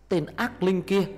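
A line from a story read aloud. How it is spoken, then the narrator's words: Shout from behind. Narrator (Vietnamese): tiếng Cám hét lên từ phía sau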